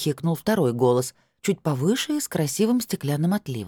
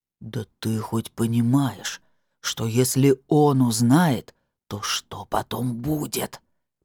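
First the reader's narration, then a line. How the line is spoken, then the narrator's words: Hissed. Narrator (Russian): прошипел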